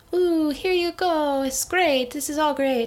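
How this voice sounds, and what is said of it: Put-on unidentified accent. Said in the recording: “I don't know what accent that is”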